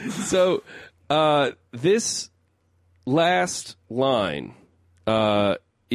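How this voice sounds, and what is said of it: Usual voice. Nothing is said of it.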